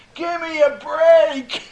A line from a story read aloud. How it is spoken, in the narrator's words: he's hollering